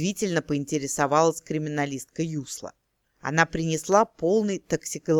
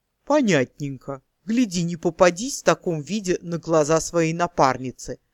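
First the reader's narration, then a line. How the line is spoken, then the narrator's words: Orc hissing, nose pinched. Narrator (Russian): процедила орка, демонстративно зажимая нос пальчиками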